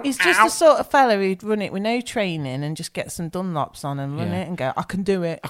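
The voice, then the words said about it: Put-on London accent. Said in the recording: “I don't know why I'm doing it with a London ... accent.”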